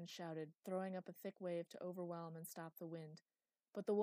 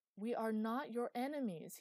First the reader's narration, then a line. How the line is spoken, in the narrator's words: he shouted again